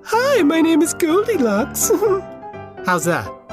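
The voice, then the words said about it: Man doing a girl's voice. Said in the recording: “do a girl voice ... Goldilocks is a girl”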